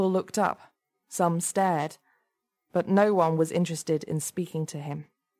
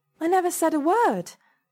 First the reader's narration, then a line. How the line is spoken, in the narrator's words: she said desperately